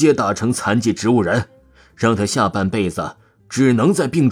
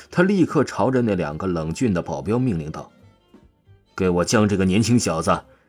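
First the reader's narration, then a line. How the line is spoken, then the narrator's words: Cold sneer. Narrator (Chinese): 宁墨无比冷笑了起来，出声道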